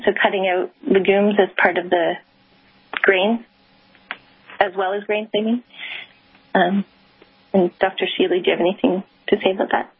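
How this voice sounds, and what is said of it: Fast speech with a foreign accent. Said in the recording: “the speed of your voice with your accent makes it very difficult for me.”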